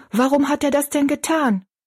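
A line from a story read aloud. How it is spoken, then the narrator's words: Called out. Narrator (German): rief Betty Ann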